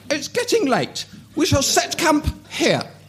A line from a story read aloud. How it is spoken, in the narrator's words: exclaimed Brienne